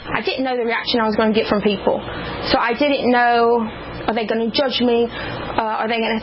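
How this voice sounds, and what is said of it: Foreign-sounding accent. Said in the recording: “foreign accent syndrome”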